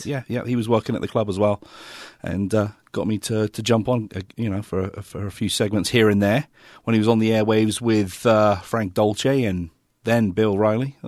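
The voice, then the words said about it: English accent with American twang. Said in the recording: “from England ... the accent ... Most people think I'm Australian ... a mixture of English with an American twang”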